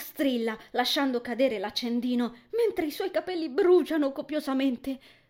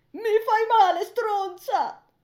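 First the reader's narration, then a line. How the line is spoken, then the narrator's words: Panicked tearful scream. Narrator (Italian): urla Lia, con le lacrime agli occhi e in preda al panico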